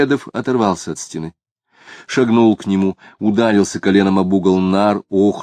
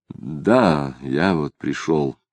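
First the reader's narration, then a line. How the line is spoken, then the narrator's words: Quiet, reluctant confirmation. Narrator (Russian): подтвердил Самгин, говоря негромко, чувствуя, что предпочел бы роль безмолвного зрителя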